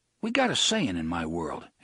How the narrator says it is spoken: Eddie said

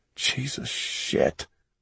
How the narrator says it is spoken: Mellis muttered

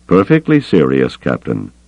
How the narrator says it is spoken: Thrawn said evenly

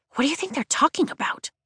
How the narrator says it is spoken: Rhiannon whispers

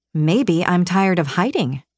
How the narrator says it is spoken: said

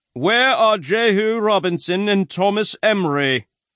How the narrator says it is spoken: Master Archer shouts out

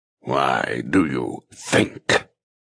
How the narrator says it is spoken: He snarls

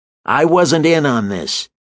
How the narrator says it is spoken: shouted through the racket

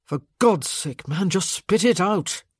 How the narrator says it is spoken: Michael muttered

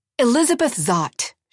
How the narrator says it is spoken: she barked back

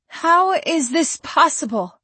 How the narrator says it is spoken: Her voice shook

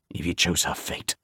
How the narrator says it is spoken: Griffin snarled

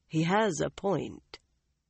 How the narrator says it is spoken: Tom said quietly

